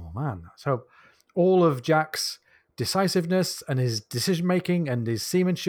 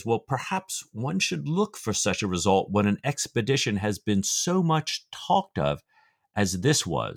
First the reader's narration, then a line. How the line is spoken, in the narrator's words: said Stephen